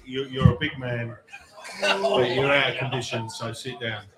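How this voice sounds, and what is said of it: Imitates another person's voice. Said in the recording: “do a mean Michael Caine impersonation.”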